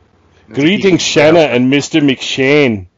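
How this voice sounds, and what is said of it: Terrible put-on accent. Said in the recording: “That's a terrible accent.”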